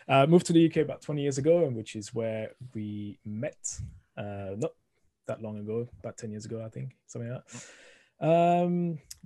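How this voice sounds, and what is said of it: Thick French accent. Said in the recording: “originally from France, as you can hear, the thick accent coming through the microphone”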